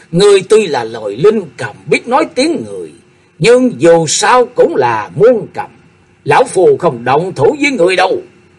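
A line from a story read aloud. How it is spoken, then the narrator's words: Loud laughing speech. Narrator (Vietnamese): Cung Lôi Dương Tử cười lớn nói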